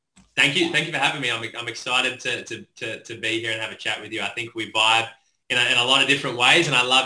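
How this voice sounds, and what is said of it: Australian accent. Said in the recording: “he has an awesome Australian accent. So everyone loves Australian accents”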